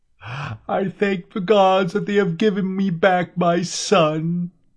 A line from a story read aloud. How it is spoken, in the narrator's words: She sobbed